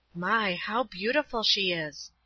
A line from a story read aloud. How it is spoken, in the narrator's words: I murmured to myself